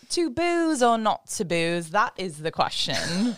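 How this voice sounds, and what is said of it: Put-on theatrical accent. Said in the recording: “always coming in clutch with the accents.”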